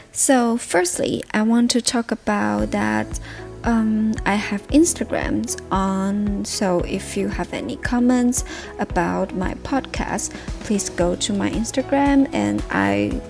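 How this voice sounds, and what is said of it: Non-native English accent. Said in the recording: “please ignore my poor grammar, poor English, poor pronunciation, ... and also about my um, accent.”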